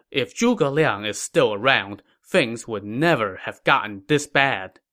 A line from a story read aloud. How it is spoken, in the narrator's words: Sun Xiu sighed and said